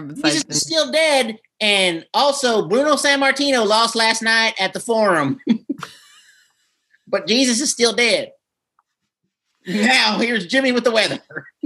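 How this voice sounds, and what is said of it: AM radio announcer voice, Southern. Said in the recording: “my best AM radio impersonation ... is everyone on AM radio like Southern?”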